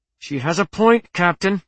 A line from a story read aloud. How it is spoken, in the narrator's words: said the helmswoman through gritted teeth